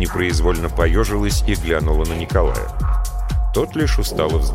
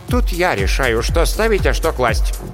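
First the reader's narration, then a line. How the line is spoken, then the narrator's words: Sharp reply, headmistress. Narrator (Russian): резко ответила директор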